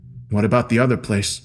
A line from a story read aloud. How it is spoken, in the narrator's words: I said firmly